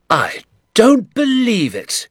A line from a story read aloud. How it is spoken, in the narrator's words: he cried